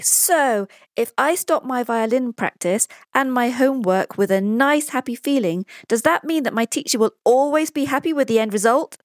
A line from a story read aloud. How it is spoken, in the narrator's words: Pablo asks triumphantly